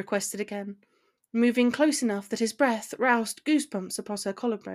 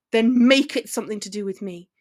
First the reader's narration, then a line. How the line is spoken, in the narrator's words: he shouted